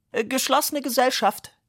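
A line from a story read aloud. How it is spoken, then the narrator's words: Called out. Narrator (German): rief Fischer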